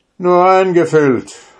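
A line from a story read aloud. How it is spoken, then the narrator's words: Soldier calling out. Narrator (German): rief der Soldat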